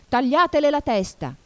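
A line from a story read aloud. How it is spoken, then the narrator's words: Queen screaming at full voice. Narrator (Italian): urlò la regina con quanta voce aveva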